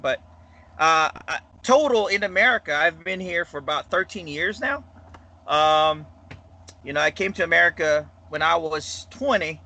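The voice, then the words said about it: Filipino accent. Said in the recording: “I came from the Philippines. Uh, I don't know if you can tell my accent”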